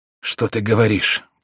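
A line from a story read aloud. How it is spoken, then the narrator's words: Weak whisper. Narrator (Russian): прошептал Бокстель слабым голосом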